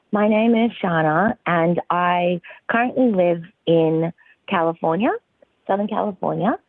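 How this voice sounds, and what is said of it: Australian accent. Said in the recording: “my accent, as you pointed out, is Australian, actually. So I was born and bred in the Australian outback.”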